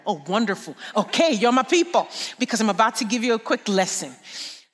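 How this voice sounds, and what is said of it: Nigerian accent. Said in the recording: “I grew up in Nigeria. I'm sure you can hear the accent.”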